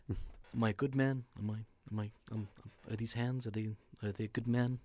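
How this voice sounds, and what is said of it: Imitates another person's voice. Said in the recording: “my De Niro impression”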